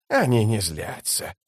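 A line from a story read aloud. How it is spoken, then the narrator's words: Cooing. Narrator (Russian): проворковал Искарал прыщ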